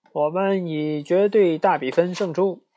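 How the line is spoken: Guests screaming. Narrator (Chinese): 客人们尖叫起来

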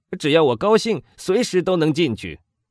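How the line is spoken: Frank shout. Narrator (Chinese): 他直率地喊道

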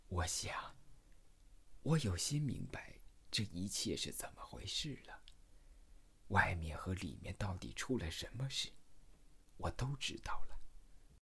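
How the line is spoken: Soft. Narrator (Chinese): 她轻声的说

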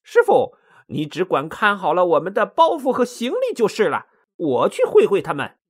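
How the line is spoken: Cheerful, comforting. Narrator (Chinese): 孙悟空笑嘻嘻的安慰着唐僧说

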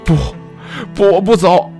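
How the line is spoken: Tearful shout. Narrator (Chinese): 我泪如泉涌，大喊道

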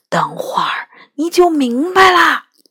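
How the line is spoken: Quiet. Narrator (Chinese): 角端小声说

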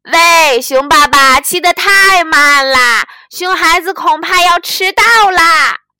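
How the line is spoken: Loud duck voice. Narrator (Chinese): 鸭子大声说

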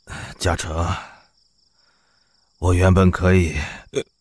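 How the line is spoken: Hoarse. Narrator (Chinese): 冷夜晨哑声的说着

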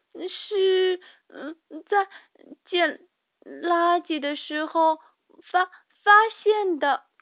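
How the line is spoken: Stammering. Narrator (Chinese): 茉莉更结结巴巴地说

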